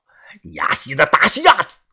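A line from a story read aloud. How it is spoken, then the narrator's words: Furious shout, middle-aged man. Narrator (Chinese): 那个中年人脸色大怒的喊道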